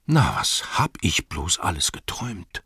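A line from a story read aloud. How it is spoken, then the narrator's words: Murmuring. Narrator (German): murmelte er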